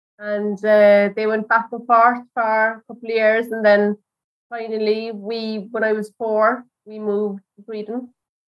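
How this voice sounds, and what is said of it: Irish accent. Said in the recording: “you certainly haven't lost the accent in the intervening years ... you can take the girl out of Ireland, but never take the Irish out of the girl ... his accent is absolutely perfect, as is yours”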